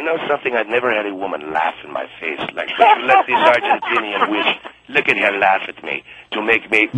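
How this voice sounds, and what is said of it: Speaks with a foreign-sounding accent. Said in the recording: “She tried to be impressed with a funny accent ... Why do you say my accent is phony?”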